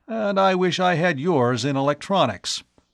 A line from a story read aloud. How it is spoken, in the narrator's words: the elder scientist declared with a chuckle